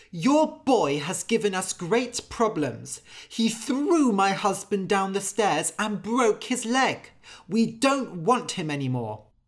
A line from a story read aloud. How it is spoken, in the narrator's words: the priest's wife went to Anders' father and shouted